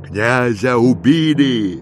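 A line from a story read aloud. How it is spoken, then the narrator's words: Shouted. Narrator (Russian): крикнул он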